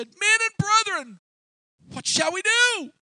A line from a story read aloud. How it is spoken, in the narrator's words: they cried out, they said